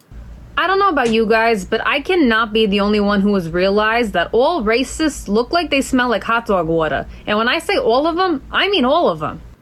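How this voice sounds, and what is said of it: Strong New Jersey accent. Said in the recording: “I can't with that accent... Yeah, the New Jersey.”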